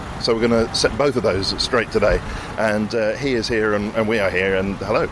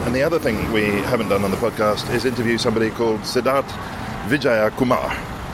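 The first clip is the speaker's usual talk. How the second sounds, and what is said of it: Very good put-on Indian accent. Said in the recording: “You did it in a very good Indian accent as well.”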